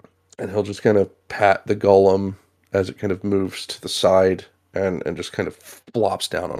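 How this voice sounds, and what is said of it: Usual voice. Nothing is said of it.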